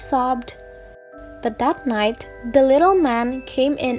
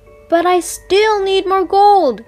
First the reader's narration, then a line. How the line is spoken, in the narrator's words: he cried